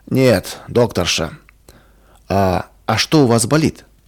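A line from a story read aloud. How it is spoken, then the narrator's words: Sharp, angry patient. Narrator (Russian): Больной сердито резко бросил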